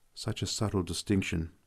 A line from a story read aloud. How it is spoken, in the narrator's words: I murmured